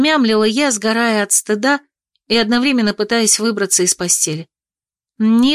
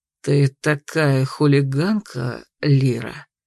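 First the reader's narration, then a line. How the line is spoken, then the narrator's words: Dragon purring in ear. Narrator (Russian): Промурлыкал на ухо дракон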